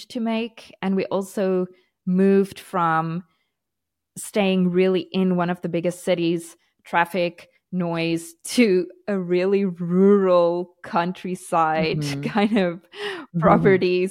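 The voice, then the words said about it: Mixed, partly South African accent. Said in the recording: “my accent is just a little, everybody always says it's strange because I sound South African, but not completely South African. And when I started learning Portuguese, when we moved here, my accent changed again.”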